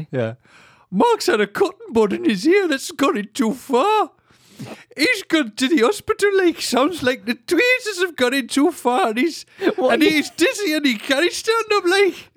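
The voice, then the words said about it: Put-on Teesside accent. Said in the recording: “How do the people from the Teesside... if you just do a Geordie accent, that's not what it is.”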